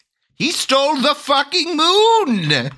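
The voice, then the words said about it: Crazy wizard character voice. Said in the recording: “my crazy wizard voice”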